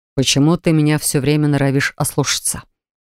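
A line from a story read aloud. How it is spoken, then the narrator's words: Growling. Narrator (Russian): прорычал Грэгхан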